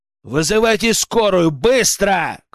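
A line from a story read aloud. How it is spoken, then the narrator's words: Shouted. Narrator (Russian): крикнул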